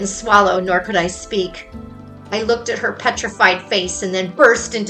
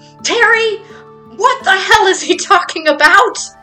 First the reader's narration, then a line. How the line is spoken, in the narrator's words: She yelled